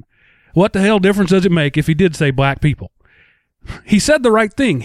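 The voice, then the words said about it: Exaggerated redneck accent. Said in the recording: “let me slip on into my native accent right now ... this is how people around here really talk put on my resident redneck hat”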